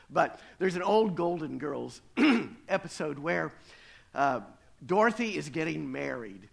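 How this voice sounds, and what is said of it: Crackly voice from a cold. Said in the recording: “I'm working on a cold today, so if my voice is a little crackly, it's not as bad as it sounds.”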